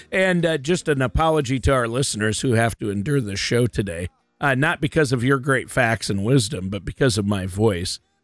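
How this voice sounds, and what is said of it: Hoarse, partly lost voice. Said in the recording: “lost my voice ... I have allergies and it just leads to this”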